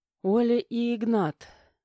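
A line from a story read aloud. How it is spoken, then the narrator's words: Hesitant, embarrassed, rapid babble. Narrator (Russian): выдавила неуверенно, чувствуя, как снова краснею, сбивчиво протараторила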